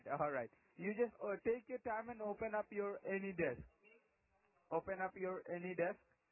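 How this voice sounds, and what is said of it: Strong foreign accent. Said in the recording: “Your accent is very strong here.”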